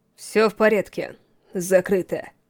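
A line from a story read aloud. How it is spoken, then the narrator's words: Cold, habitual tone. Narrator (Russian): сказал своим привычным, холодным тоном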